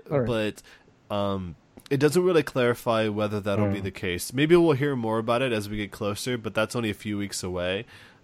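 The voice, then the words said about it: Voice sounds slightly off. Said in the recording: “I'm finding it cold, by the way, so sorry if my voice sounds kind of weird.”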